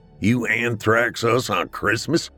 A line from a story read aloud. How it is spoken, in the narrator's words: Drew laughed